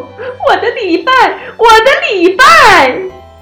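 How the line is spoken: Sobbing. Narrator (Chinese): 他大哭了起来，一边哭一边说

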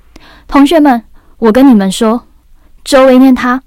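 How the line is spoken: Loud. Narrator (Chinese): 李奇山大声地说

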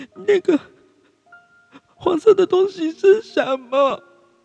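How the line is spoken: Sudden loud shout. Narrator (Chinese): 爱哭公主突然大叫

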